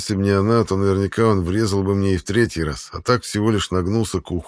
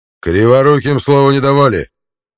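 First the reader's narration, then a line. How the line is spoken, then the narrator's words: Barking shout. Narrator (Russian): гаркнул Равуда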